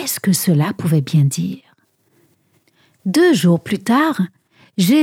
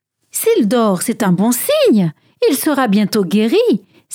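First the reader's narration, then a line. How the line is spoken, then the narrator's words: Disciple exclaiming. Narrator (French): s'écria un disciple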